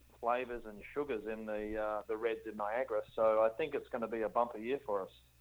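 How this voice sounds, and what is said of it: Australian accent. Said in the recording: “Australian accent”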